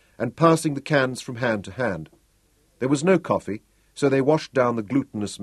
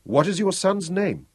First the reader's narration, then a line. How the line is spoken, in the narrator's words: he asked Butzo